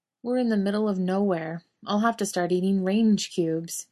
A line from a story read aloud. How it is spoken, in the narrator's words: Jared says mournfully